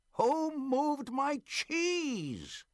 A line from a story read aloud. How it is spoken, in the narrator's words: he hollered